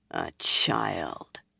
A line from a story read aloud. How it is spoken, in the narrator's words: Amys muttered